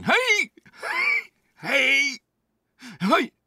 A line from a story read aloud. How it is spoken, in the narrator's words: I was shouting